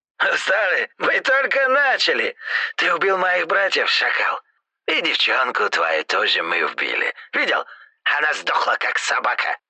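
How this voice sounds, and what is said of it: Hoarse voice, Caucasian accent. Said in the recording (Russian): “Хриплый голос с кавказским акцентом”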